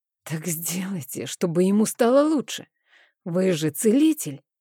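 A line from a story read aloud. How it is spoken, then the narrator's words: Hoarse. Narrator (Russian): прохрипела я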